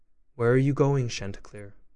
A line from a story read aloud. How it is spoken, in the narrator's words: said he